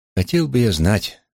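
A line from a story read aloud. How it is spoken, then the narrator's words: Sighing. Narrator (Russian): вздохнул я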